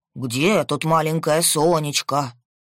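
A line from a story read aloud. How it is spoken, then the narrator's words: Funny booming bass. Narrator (Russian): Смешным басом заголосил Игнат Семенович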